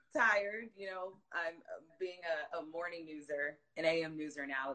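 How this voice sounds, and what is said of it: Hoarse, worn-out voice. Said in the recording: “Sound a little hoarse. ... by the end of the day, this voice is just gone. It's gone.”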